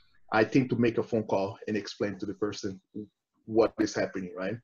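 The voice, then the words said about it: Non-native accented English. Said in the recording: “my accent sometimes, doesn't come across too well. Unfortunately, it doesn't sound like Antonio Banderas”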